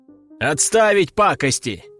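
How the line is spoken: Shout. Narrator (Russian): крикнул я

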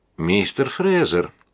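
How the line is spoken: Meaningful giggle. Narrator (Russian): многозначительное хихиканье

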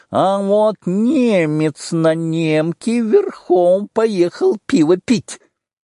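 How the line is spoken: Nasal old man's shout. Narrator (Russian): Старичок-шалун закричал гнусаво

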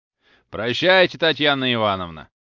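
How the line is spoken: Calling after someone. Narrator (Russian): крикнул еще вслед кучер

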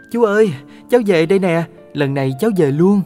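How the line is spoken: Child's joyful cry. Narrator (Vietnamese): cháu đã reo lên hớn hở

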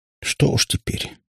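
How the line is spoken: Sigh. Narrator (Russian): снова вздохнула Катя

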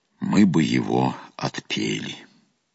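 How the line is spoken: Calm answer. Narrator (Russian): отец-наместник спокойно ответил

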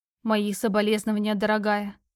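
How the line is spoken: Dejected, sinking voice. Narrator (Russian): вымолвила шатенка упавшим голосом

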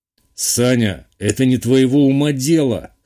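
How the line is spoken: Smirking. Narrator (Russian): хмыкнул Матвей

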